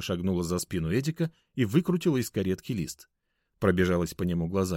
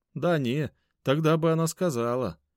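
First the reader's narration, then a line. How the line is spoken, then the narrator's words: Glum. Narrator (Russian): уныло проговорил Эдик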